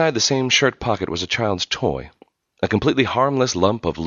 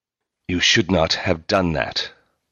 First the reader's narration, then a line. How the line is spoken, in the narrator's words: Markle said in a low, furious voice